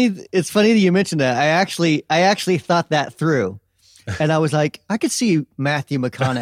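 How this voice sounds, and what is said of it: Usual voice. Nothing is said of it.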